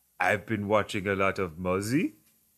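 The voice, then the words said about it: Exaggerated put-on French accent. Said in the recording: “Now he's French, straight up French accent. ... this ridiculous accent”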